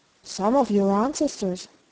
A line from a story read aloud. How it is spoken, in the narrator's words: answered the Earl